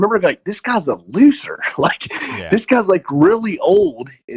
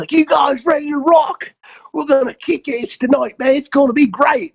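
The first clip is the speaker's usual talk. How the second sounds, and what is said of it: Thick English accent imitation. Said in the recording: “he's got this thick English accent”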